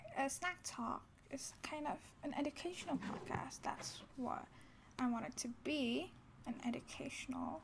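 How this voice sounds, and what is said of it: Young child's voice. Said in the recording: “I'm still a kid, obviously, you can hear it from my voice”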